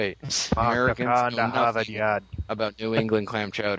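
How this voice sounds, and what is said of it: Usual voice. Nothing is said of it.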